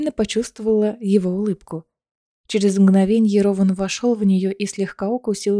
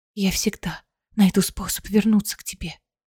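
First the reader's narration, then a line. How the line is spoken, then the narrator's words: Whisper. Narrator (Russian): прошептала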